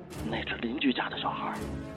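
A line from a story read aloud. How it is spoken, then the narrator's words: Quiet, hushed. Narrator (Chinese): 丈夫小声说道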